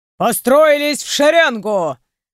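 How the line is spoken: Big man barking. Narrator (Russian): рявкнул высокий, широкоплечий мужчина

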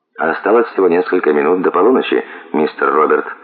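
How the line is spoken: Calm. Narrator (Russian): ответил Брикс спокойно

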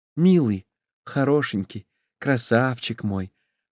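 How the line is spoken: Muffled whisper into pillow. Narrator (Russian): прошептала она, прижимаясь лицом к подушке с неопределенной улыбкой

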